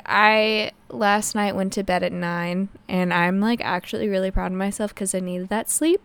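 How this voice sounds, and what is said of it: Scratchy, slightly strange tired voice. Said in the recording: “I do have, like, a scratchy throat ... my voice sounds a little weird, and I'm tired”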